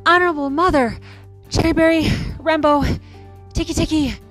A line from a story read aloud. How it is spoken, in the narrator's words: he gasped